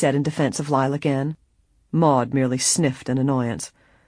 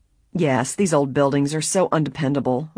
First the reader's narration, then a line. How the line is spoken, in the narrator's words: Maud said crossly